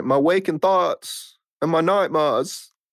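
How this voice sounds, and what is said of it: Bad put-on accent. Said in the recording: “You like that accent? ... So bad.”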